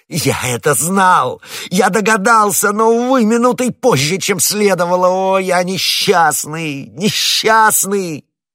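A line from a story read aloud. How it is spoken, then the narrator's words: Shouting. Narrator (Russian): лорд Винтер закричал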